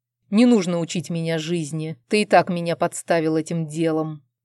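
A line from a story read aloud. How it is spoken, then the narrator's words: Displeased growl. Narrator (Russian): недовольно прорычал мой муж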